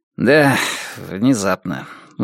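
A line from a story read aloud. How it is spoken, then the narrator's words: Sighing. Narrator (Russian): вздохнул Джек Хобарт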